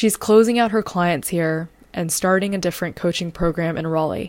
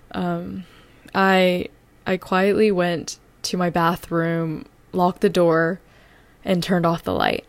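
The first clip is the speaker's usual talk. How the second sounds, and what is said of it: Emotional, wavering voice. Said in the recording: “Ooh, I don't know why I'm getting a little emotional.”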